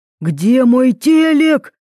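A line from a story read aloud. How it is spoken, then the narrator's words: Yelling. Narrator (Russian): орал Кирилл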